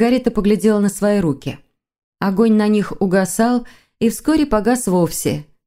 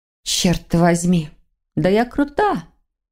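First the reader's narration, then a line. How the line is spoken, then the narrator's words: Smug snort. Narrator (Russian): хмыкнула Воронцова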